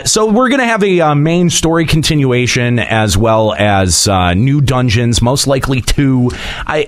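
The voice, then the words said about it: Disdainful tone. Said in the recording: “Can you hear the disdain in my voice?”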